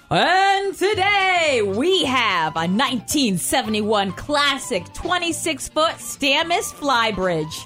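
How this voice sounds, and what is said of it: Game show announcer voice. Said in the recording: “let me get my announcer voice on”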